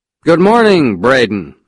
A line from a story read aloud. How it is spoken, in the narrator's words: I said loudly